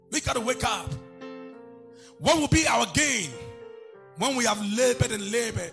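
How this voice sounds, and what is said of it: Shouting preacher delivery. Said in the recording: “I'm not shouting because I am better. I'm shouting because God is calling me and calling you.”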